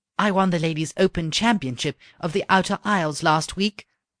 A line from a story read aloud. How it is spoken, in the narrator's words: said the princess